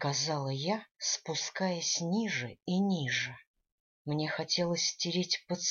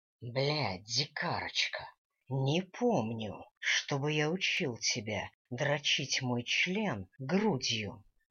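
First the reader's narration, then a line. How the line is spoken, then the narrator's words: Growled. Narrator (Russian): рыкнул Дэниел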